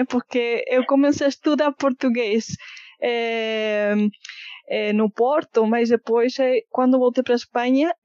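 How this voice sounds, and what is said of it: Foreign accent, between Portuguese and Brazilian. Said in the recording (Portuguese): “seu sotaque fica nesse meio ... um português com sotaque”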